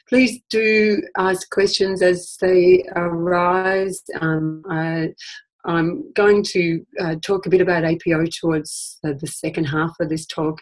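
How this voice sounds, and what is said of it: Slightly croaky voice. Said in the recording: “As you can hear, I'm a little bit croaky. I've had, I don't know if it's the cold or a flu or something”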